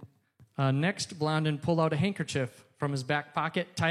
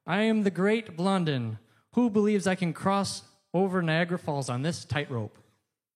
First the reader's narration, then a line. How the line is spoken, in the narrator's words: Blondin, known for his showmanship, called out to the crowd